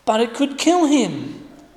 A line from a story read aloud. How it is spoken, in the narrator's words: Jenny pleaded